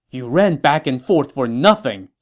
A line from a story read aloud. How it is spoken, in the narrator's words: he said angrily